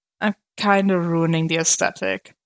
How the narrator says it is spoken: Clint chuckled quietly

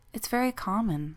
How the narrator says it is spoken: said Jennifer soothingly

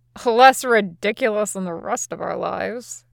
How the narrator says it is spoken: Usopp mutters

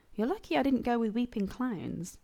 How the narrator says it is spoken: Rodney chuckled

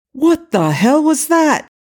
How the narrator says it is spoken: Jack exclaimed furiously

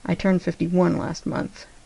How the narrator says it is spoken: John murmured against his mouth

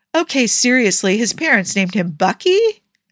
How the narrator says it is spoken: Tony asked, his voice incredulous

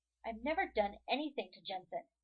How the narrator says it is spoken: Jared snaps defensively

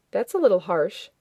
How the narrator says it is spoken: Daniel said evenly

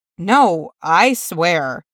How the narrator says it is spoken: Shocks says

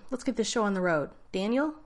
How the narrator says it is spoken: O'Neill called out to the ceiling again

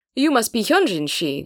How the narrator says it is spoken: the man exclaims

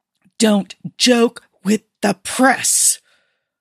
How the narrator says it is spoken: Colin hissed

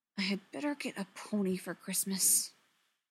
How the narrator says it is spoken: Gwen muttered

